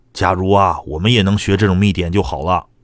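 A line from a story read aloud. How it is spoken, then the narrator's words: Low, awed murmur. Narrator (Chinese): 那个大师兄低声惊叹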